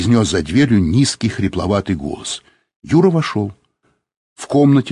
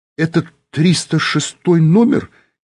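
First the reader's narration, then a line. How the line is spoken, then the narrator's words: Uncertain question. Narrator (Russian): неуверенно спросил Юра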